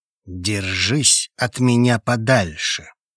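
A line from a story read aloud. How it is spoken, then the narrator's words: Slow, through gritted teeth. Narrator (Russian): Медленно, чтобы до меня точно дошел смысл слов, процедил Хейвуд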